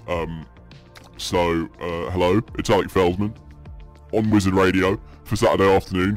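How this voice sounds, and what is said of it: Exaggerated deep low-pitched voice. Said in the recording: “I'm going to be doing the show in this voice. I've taken it down a few octaves... my other voice, my deep voice”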